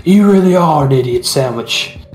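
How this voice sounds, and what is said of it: Put-on British accent. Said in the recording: “is that your British accent? ... Maybe it's maybe a little under the influence”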